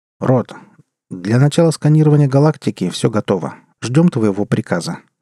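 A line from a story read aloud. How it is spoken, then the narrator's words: Calm. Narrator (Russian): спокойно произнес начальник экспедиции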